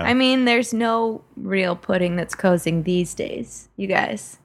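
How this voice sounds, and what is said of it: Imitates another person's voice. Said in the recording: “That Cosby smirk ... It was like he was in the room for a second ... that impression”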